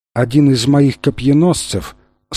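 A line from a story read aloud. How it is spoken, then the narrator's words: Calm. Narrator (Russian): спокойно продолжала царица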